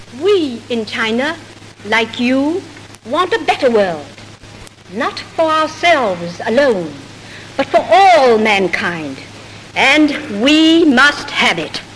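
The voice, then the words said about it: American English, slight Georgia accent. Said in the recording (Chinese): “略带有乔治亚州口音的纯正美式英文”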